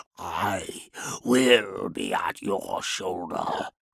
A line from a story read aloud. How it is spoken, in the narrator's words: he hissed